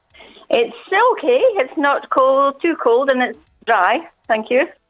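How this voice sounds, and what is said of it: Scottish accent. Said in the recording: “I detect a Scottish accent.”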